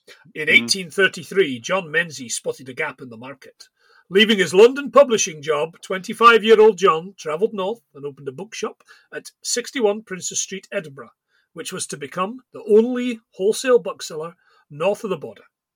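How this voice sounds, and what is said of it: Terrible put-on Edinburgh accent. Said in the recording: “that's a terrible Edinburgh accent”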